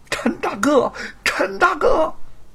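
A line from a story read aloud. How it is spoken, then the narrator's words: Anguished crying out. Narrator (Chinese): 吴承恩痛楚的哭喊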